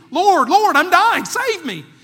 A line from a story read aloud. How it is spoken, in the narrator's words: He was pleading